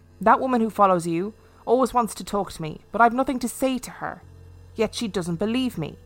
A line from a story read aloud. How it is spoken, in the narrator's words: The lady replied sharply